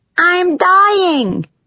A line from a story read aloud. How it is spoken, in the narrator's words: she cried out at me